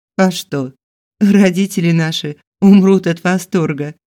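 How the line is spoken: Giggling. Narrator (Russian): хихикнула

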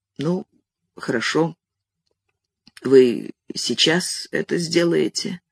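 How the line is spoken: Hoarse. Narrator (Russian): он сказал хрипло

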